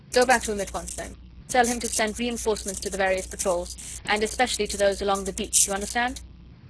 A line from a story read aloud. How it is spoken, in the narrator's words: Chauvelin spoke curtly and to the point